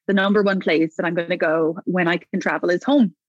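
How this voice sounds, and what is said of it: Irish accent. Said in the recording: “given my accent and where I'm from ... home to Ireland”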